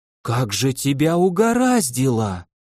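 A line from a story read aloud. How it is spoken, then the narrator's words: Breathed out. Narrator (Russian): выдохнула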